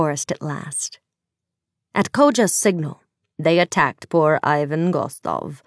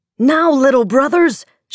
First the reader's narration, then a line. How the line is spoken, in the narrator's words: shouted Koja